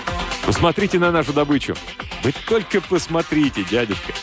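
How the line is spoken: Breathless laughter. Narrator (Russian): Он смеялся, задыхаясь

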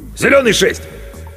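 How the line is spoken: Shouting. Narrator (Russian): крикнул

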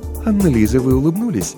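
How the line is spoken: Plain. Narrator (Russian): сказала вдруг королева

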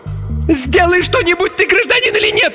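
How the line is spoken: Indignant shriek. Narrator (Russian): возмущенно завизжала Инга

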